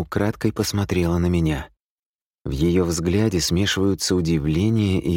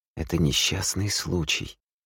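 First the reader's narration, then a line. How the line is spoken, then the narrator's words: Quiet. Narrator (Russian): тихо произносит Аки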